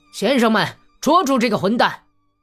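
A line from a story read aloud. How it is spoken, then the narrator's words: Officer shouting. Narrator (Chinese): 那个军官叫喊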